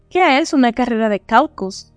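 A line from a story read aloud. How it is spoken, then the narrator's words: Plain. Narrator (Spanish): dijo Alicia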